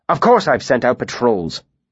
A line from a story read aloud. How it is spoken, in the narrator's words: he snapped